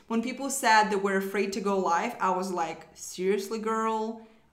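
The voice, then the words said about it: Non-native English accent. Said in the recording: “I was just an immigrant girl uh, with terrible accent ... My accent is still not perfect”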